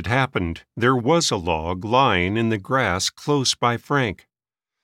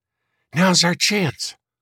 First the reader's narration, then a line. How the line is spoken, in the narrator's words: whispered Frank to his brother